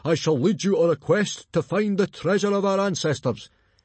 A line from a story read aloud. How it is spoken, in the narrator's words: he bellowed